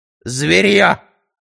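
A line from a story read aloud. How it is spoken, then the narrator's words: Snorted. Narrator (Russian): фыркнула она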